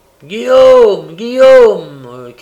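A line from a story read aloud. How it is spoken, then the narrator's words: Shouted. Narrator (French): cria le juif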